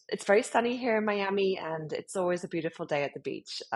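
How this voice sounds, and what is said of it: British accent. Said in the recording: “as you can hear from my accent, I'm from the UK, British born and bred”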